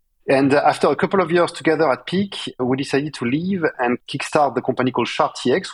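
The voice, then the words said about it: Strong French accent in English. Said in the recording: “I could not get rid of my uh, very strong French accent in spite of trying ... I personally enjoy the French accent.”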